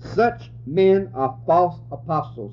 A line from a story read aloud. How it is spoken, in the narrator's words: he said